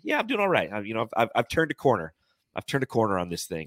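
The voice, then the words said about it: Slightly off, sick-sounding voice. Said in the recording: “my voice is a little off. I've been sick for the past week”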